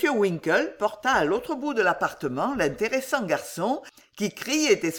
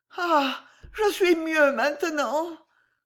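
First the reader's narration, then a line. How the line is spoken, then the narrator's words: Weak sigh. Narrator (French): soupira faiblement Madame Bardell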